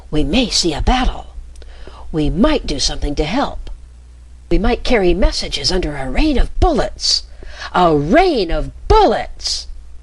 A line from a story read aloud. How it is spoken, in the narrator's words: The thought so elated him that he forgot his whisper and his voice rang out fiercely